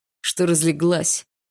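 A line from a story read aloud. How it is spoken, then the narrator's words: Barked. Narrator (Russian): рявкнул Барс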